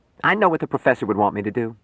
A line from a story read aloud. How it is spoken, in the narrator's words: she said sharply